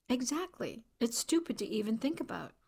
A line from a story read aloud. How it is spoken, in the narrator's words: Jasper mumbled